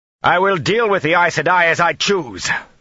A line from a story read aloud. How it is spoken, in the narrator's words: Rand shouted